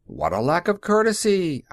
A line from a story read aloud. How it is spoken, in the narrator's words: I shouted